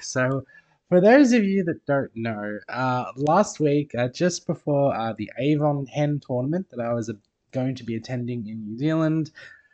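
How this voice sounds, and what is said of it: Sick-sounding voice. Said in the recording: “as you might be able to tell from my voice, I am still a little sick.”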